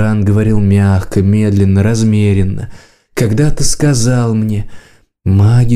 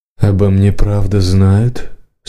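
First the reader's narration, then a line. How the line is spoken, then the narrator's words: Muffled question. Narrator (Russian): спросила она глухо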